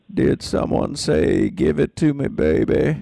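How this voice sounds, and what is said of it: Bill Clinton impression. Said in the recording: “my Bill Clinton impersonation ... That was very good.”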